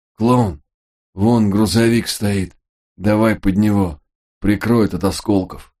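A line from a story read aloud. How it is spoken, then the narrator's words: Hoarse wheeze. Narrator (Russian): прохрипел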